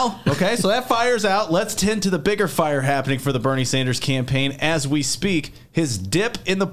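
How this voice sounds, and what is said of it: Usual voice. Nothing is said of it.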